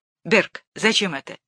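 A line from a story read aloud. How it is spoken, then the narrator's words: Sharp, angry question. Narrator (Russian): Батурин вспыхнул, резко спросил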